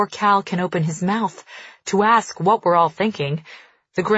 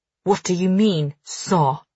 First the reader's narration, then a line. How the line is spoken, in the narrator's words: Farley growls